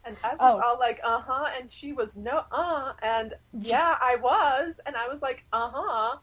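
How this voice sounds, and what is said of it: Put-on fake character voice. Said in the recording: “That is the best ... fake voice conversation ever.”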